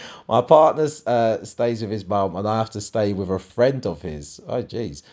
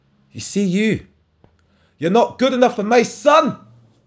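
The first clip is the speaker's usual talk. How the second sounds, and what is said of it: Harsh put-on Scottish accent. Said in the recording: “she's Scottish as well. So that accent just makes it harsher.”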